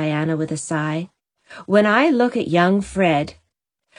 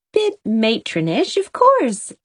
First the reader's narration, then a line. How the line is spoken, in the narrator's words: laughed Anne